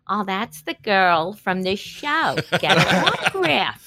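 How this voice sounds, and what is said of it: Put-on Long Island American accent. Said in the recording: “did you just do an American accent? ... That was like a Cyndi Lauper Long Island accent”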